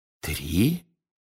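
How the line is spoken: Whisper. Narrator (Russian): шепнул мистер Уизли

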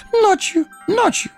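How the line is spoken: Eager babbling. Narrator (Russian): С готовностью залепетал Горлум

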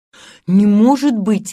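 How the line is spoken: Feigned astonished indignation. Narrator (Russian): воскликнул Питер, притворяясь изумленным и негодующим

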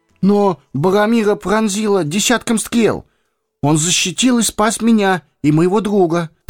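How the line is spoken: Faltering babble. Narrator (Russian): пролепетал Пипин

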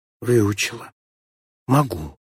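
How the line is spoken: Barely audible. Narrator (Russian): чуть слышно ответила Морозова

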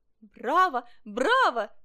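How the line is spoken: Eager shouting. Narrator (Russian): закричал Олешек, чтобы доставить ему удовольствие

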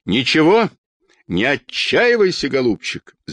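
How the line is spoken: Shouted. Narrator (Russian): закричала Анна Петровна

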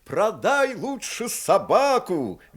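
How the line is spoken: Cheerful loud shout, young man. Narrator (Russian): весело и громко, как глухому, крикнул китайцу молодой капитан парохода

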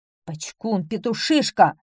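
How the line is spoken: Tsar's angry shout. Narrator (Russian): гневно крикнул царь

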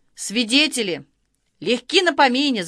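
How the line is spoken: Shout. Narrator (Russian): закричал Малинин

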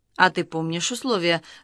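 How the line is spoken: Confused question. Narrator (Russian): растерянно спросил Баранкин Малинина

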